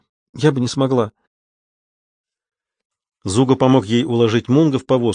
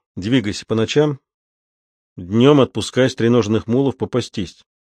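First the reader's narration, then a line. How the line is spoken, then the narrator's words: Plain. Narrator (Russian): сказал Зуга Луизе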